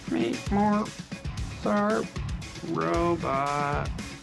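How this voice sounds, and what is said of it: Poor robot voice imitation. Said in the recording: “do the robot voice ... That's a terrible robot voice.”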